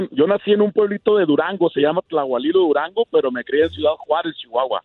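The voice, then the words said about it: Radio announcer-style voice. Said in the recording (Spanish): “ahorita estás haciendo la voz de locutor”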